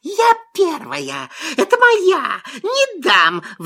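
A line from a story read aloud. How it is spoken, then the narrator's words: Sudden squeal. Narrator (Russian): Вдруг взвизгнула лиса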